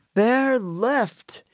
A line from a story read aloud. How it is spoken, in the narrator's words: shouted Mr